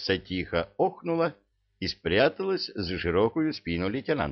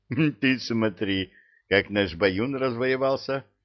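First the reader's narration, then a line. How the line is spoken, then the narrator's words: Laughing. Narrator (Russian): засмеялся Молотков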